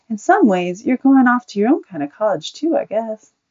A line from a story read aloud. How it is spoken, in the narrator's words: smiled and said kindly